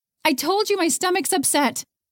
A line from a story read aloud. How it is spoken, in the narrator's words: she hollered back